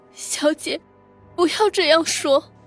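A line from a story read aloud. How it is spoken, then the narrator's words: Crying. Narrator (Chinese): 绿儿哭着说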